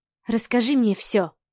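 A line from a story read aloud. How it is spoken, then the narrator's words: Quiet request. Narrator (Russian): тихо попросила Маша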